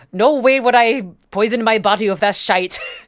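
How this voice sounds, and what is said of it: Put-on Scottish accent. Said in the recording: “pardon my Scottish accent.”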